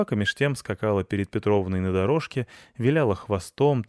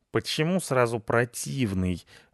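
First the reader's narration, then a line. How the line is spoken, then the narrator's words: Grumbling while running off. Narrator (Russian): ворчал Рыжопиус, убегая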